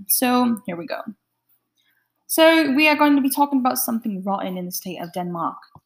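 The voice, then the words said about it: Put-on British accent. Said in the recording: “I think of people talking in a British accent. So I'm going to be talking to you like that”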